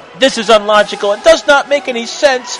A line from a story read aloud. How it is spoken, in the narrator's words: Ebony bellowed out to the air